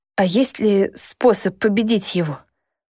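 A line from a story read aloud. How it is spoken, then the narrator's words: Hoarse question. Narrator (Russian): спросила я хрипло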